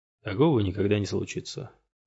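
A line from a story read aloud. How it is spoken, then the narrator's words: Quiet. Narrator (Russian): тихо сказал Кафланд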